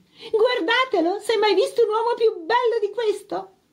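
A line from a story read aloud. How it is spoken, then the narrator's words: Yell. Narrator (Italian): urla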